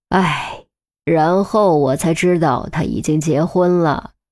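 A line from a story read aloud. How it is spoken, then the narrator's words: Sighing, resigned. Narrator (Chinese): 黄天福突然叹了口气，无奈地说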